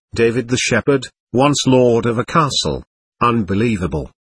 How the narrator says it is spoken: said

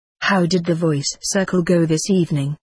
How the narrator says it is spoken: he asked

